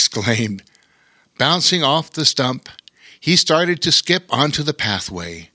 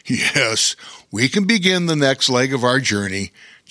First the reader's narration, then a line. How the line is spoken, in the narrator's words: chuckled Bear King